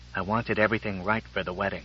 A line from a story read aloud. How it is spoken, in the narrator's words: He whispered back